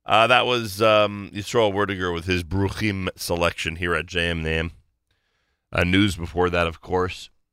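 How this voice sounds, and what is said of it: Mildly congested voice. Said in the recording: “my mild laryngitis. Yeah, it's not laryngitis, but what do you call it? Mild congestion, maybe?”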